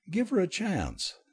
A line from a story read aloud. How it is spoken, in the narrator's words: David pleaded good-naturedly